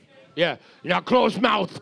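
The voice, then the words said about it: Put-on Russian accent. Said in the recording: “That's my Russian accent. ... That was perfect.”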